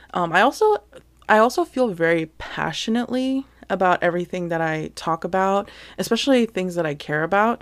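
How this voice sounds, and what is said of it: Fast, breathless speech. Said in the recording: “I sound like I'm always out of breath. It's because I'm trying to talk so fast ... I tend to like talk faster and louder”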